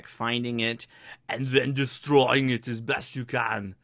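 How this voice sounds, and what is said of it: Poor imitation of another person's voice. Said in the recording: “That is my worst ham radio Arnold Schwarzenegger impersonation ever.”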